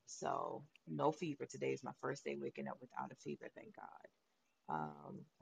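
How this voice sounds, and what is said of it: Sick, weakened voice. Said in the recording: “As y'all can hear, my voice is still not back, still coughing”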